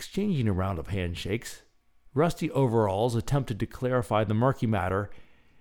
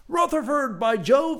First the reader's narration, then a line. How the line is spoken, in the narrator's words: exclaimed Rutherford